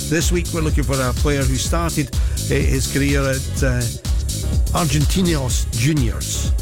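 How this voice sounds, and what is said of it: Scottish accent. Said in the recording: “That's the best you're going to get from a Scot with that accent.”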